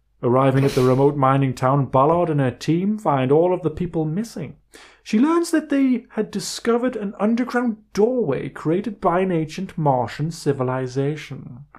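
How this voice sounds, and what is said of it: Put-on accent gradually creeping in. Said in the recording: “I didn't start with this accent, did I? ... No, you've gone into it, morphed into it. You've terraformed into it.”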